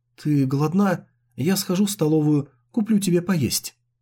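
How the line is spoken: Soft question. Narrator (Russian): Шэнь Вэй мягко спросил

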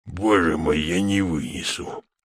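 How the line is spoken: Hoarse exclamation. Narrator (Russian): хрипло воскликнул майор Фезертон

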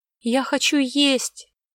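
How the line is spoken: Whining. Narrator (Russian): прохныкала Огнева

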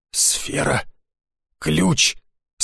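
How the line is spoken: Hoarse. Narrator (Russian): сказала она хрипло

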